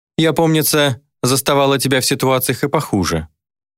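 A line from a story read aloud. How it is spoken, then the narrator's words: Displeased snort. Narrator (Russian): недовольно фыркнула демон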